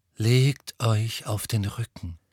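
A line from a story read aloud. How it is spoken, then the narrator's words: Calm voice. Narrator (German): sagte Firenze mit seiner ruhigen Stimme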